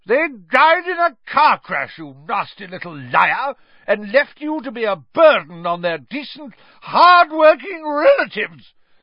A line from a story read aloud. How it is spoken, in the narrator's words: screamed Aunt Marge, swelling with fury